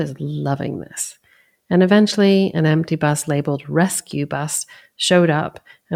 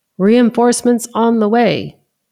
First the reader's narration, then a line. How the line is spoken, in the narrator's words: the driver yelled from the front